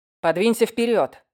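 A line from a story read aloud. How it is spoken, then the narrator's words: Barking sharply. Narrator (Russian): рявкнул Уэст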